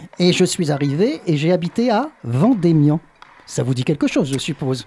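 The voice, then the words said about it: English accent speaking French. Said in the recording (French): “à mon accent, vous comprenez que je ne suis pas originaire du Languedoc ... de très loin, d'Angleterre”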